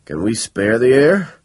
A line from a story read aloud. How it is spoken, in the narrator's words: said Funarelli anxiously